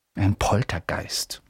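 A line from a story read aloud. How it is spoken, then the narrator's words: Whispering to first-years. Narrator (German): flüsterte den Erstklässlern zu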